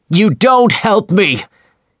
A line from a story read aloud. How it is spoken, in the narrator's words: he shouted